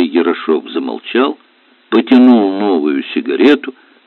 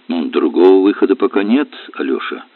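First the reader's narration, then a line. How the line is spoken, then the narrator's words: Calm. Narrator (Russian): спокойно сказала Вера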